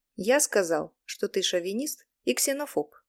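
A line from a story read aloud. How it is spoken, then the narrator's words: Sarcastic. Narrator (Russian): сказал я язвительно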